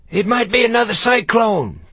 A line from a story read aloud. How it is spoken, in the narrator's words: Blackie yelled